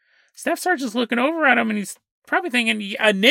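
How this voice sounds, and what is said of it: Usual voice. Nothing is said of it.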